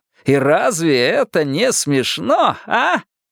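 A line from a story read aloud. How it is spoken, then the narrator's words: Laughing. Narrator (Russian): Ричи рассмеялся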